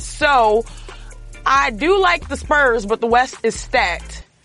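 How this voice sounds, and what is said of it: Put-on Texan accent. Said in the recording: “I'm going to use my Texan accent just because I can click it on and click it off whenever I want.”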